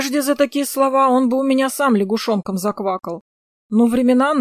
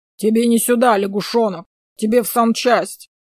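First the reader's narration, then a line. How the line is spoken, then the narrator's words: Deep bass voice. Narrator (Russian): пробасил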